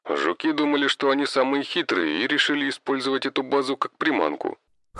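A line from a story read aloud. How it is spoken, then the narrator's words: Snorting remark. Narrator (Russian): хмыкнул Хосе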